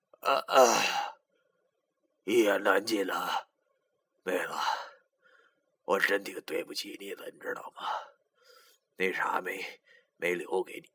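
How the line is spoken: Sighing, bitter smile. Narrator (Chinese): 叹了口气，对着张亚新苦笑道

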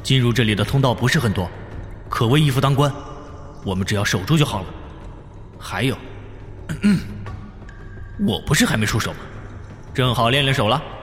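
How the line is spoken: Deep steady voice. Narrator (Chinese): 冯耀沉声说道

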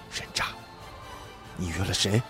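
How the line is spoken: Whispered question. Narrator (Chinese): 这位女士……立马压低声音，凑到我的耳边问

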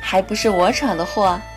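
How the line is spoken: Sighing. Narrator (Chinese): 叹道

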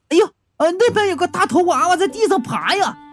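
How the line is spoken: Loud shout. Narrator (Chinese): 吴玉大喊道

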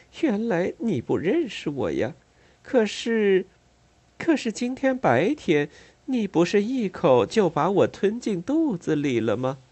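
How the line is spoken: Coy, eerie smile. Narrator (Chinese): 嘴上依然带着诡异的笑容，娇嗔道

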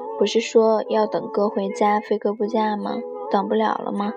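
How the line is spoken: Flat calm reply. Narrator (Chinese): 九姑娘……只是淡淡回应

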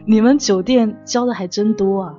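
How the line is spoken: Chuckling. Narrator (Chinese): 我噗嗤一笑说

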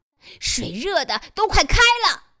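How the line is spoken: Yelling. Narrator (Chinese): 罗斯吼道

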